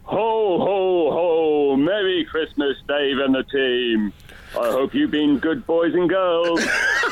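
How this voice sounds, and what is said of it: Santa Claus impression. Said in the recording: “greatest Santa impersonator ... It's a voice, yeah.”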